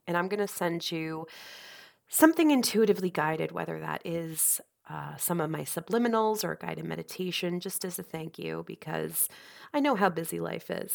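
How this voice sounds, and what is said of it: Congested, nasal voice. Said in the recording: “hear it in my voice ... I'm actually getting over a pretty nasty virus. It was all in my head, very congested ... I'm just not sounding better. So that's why I'm sounding so nasally”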